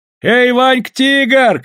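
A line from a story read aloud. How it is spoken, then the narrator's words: Shouting. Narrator (Russian): кричал Тимоха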